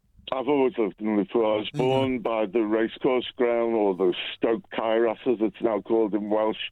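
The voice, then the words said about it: Scouse Liverpool accent. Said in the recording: “I've got a Scouse accent”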